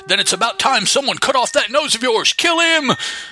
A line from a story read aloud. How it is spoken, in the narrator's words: the leader yelling